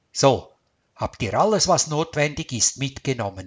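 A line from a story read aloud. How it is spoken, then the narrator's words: Plain. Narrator (German): fragte Karl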